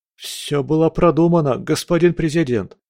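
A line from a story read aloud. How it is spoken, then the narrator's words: Babbling. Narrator (Russian): пролепетал другой подчиненный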